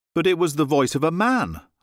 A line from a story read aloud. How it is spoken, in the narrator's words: I cried